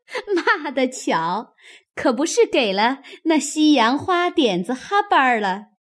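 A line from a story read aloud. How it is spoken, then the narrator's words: Group laughing. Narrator (Chinese): 众人听了，都笑道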